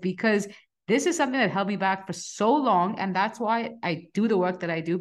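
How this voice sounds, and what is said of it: Passionate, intense delivery. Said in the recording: “you can tell from my voice, I'm getting really passionate about this”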